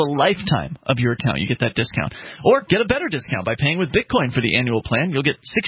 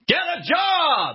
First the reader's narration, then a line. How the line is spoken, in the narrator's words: at the top of his lungs